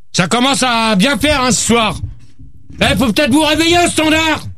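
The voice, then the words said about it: Shouting angrily. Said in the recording (French): “arrête de crier, toi!”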